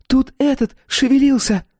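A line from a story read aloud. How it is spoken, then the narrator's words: Shrieking exclamation. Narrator (Russian): Лея взвизгнула, воскликнув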